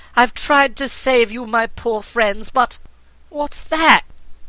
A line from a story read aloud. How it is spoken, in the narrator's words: exclaimed the princess